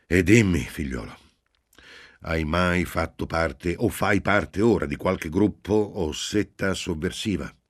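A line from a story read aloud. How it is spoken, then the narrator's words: Priest's conclusive final question. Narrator (Italian): il prete disse in tono conclusivo, come muovendo l'ultima e definitiva domanda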